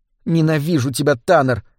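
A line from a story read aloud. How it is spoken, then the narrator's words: Muttered through teeth. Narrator (Russian): пробормотала она сквозь зубы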